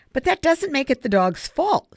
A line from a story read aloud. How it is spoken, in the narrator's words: Savannah continued sharply